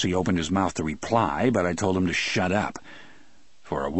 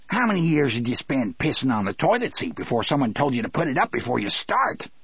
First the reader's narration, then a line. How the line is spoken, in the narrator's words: he snarled